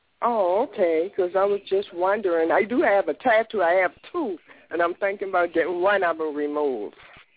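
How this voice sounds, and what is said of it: Charleston South Carolina accent. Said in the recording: “Are you from Charleston? ... you sound like my family. ... Oh, you got that leafy accent.”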